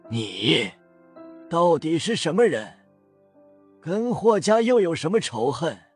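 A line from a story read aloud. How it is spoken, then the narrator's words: Calm question after long pause. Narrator (Chinese): 良久才淡淡的问道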